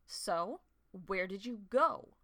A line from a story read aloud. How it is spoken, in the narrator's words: Frostfur growled